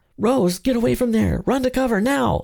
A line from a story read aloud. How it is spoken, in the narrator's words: her father screamed